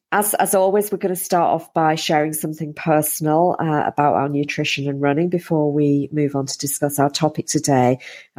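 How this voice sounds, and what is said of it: Slightly hoarse, strained voice. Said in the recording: “I've got a little bit of a sore throat today. So if my voice gives up on me”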